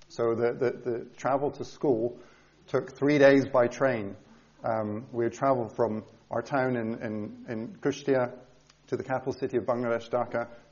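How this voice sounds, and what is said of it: Mixed, Scottish-tinged accent. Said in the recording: “Hence my accent. It's a little bit confusing. There are 35 different nationalities at my school, and everyone's accents got confused. But I am Scottish”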